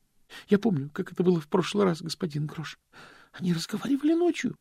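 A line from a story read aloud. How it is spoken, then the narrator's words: Trembling voice. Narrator (Russian): произнес Стэнли дрожащим голосом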